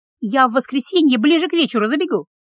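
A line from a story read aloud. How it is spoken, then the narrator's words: Hurried. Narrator (Russian): торопливо сказала Регина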